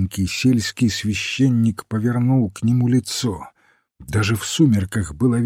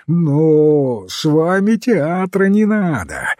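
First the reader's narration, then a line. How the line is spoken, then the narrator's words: Shouted. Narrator (Russian): закричал он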